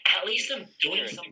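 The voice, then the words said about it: Put-on female voice. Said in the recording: “I just put on a female voice.”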